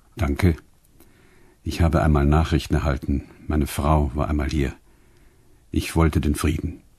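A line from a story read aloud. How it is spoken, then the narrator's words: Very quiet. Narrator (German): Und dann noch ganz leise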